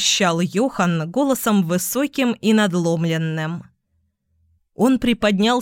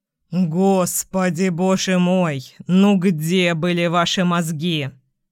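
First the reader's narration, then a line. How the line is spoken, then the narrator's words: Groaning. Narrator (Russian): застонал он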